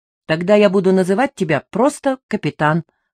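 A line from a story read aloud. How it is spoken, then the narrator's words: Plain. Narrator (Russian): сказала я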